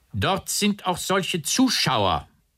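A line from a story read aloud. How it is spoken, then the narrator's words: Called out. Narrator (German): rief K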